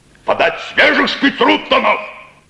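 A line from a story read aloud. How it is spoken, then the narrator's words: Shout. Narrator (Russian): крикнул он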